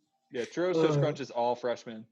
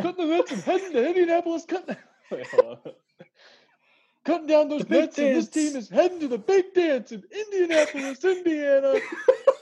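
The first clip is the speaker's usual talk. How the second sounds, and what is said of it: Dick Vitale impression. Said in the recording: “in a Dick Vitale voice ... That was really good. ... That was the best yet.”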